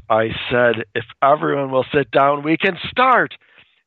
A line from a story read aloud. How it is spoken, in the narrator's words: she screams